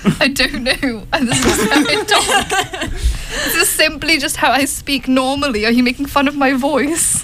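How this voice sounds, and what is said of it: Posh British accent. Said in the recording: “Your posh British accent is actually good, and I'm impressed.”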